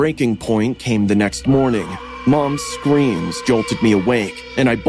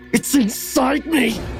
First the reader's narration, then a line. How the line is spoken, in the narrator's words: he shrieked, his voice cracking with desperation